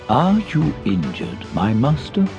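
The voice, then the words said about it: Flat monotone character voice. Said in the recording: “in his monotone voice.”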